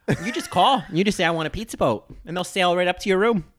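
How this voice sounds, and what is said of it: Exaggerated Midwestern American accent. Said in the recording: “terrible Midwestern accent”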